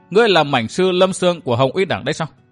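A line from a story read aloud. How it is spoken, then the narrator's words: Plain. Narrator (Vietnamese): Địch Tuân hỏi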